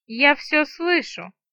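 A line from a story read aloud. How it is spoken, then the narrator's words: Gloomy she-dragon grumbling. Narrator (Russian): мрачно проворчала дракониха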